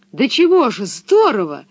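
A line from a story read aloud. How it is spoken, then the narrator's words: Delighted exclamation. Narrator (Russian): восторженно воскликнул Томми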